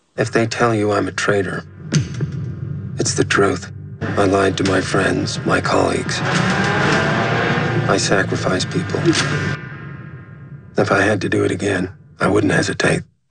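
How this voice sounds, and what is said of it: American accent. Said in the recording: “I love his American accent.”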